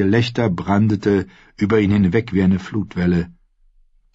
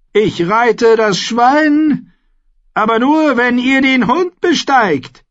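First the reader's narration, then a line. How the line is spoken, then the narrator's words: Called out. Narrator (German): rief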